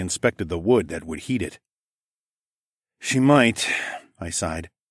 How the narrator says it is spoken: I sighed

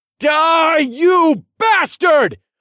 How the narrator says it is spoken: yelled

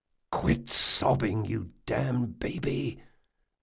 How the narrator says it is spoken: Jean hissed

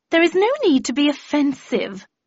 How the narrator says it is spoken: replied Gloria haughtily

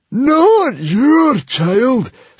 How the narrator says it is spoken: screeched the librarian

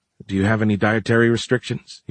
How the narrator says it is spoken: he asked

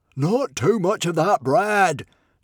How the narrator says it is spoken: Norbert roared greedily

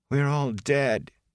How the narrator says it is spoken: she said sadly

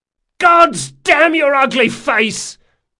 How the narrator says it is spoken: yelled Locke

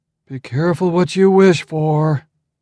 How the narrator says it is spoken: Arcibald moaned

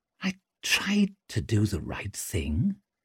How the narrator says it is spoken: he murmured, striving to make sense of it

